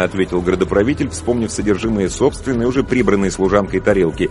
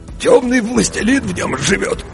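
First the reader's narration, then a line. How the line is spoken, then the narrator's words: Hoarse. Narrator (Russian): хрипло сообщил градоправитель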